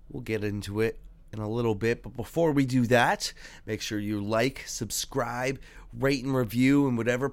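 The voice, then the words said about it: Stuffed-up, congested voice. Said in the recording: “I sound a little stuffed up.”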